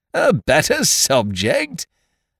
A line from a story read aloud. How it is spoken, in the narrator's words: cried the jovial John